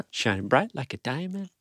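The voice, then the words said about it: Sings with a Caribbean-style accent. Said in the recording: “You're doing an accent, a Bayesian accent”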